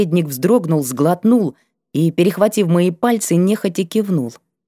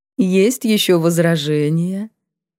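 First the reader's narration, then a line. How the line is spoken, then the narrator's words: Sing-song, insinuating, slightly ironic. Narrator (Russian): почти пропела Верховная, вкрадчиво, чуть иронично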